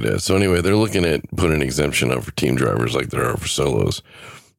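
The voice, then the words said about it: Gravelly, fading voice. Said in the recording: “I think I'm starting to lose my voice ... My voice is feeling kind of grovelly”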